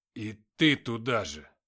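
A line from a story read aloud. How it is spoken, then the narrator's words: Growling. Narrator (Russian): зарычал Матвей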